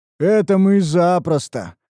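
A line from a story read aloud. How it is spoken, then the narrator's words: Booming big man. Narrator (Russian): прогудел здоровяк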